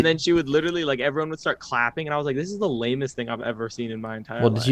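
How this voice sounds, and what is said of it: Usual voice. Nothing is said of it.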